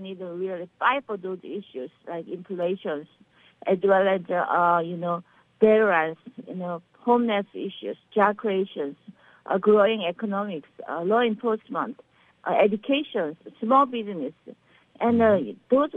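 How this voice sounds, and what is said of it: Slight Korean accent. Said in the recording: “you have a little bit of an accent ... I am from South Korea, Seoul, Korea.”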